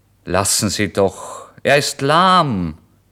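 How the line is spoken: Innkeeper calling out. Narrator (German): rief der Wirt

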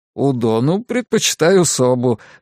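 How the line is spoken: Said, then laughing. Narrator (Russian): сказал он и рассмеялся

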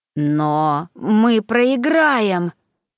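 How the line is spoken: Strained wheeze. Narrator (Russian): просипела посиневшая Кория

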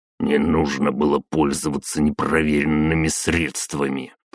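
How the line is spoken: Older man muttering under breath. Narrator (Russian): пробурчал себе под нос Кравцов-старший

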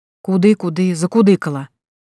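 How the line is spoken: Irritated whisper. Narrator (Russian): раздраженно прошептала я

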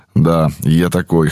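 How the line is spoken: Amused snort. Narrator (Russian): хмыкнул я

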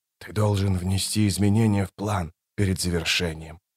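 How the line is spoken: Thoughtful whisper. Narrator (Russian): прошептал, поразмыслив Крул

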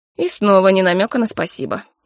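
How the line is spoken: Snort. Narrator (Russian): хмыкнул

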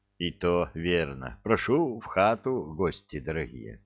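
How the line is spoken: Sighing mutter. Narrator (Russian): Староста вздохнул и пробормотал

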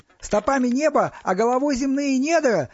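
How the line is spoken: Shouted out. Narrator (Russian): выкрикнул Стас

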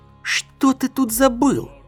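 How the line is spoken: Hissed. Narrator (Russian): прошипел Дорин

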